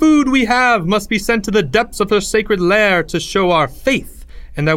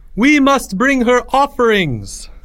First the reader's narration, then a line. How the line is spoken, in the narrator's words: the high priest cried out